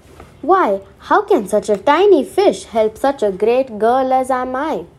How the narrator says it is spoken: laughed Rosie

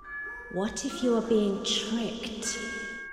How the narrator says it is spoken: they hissed

